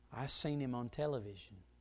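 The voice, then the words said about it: Thick Southern accent. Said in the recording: “Thick southern accent”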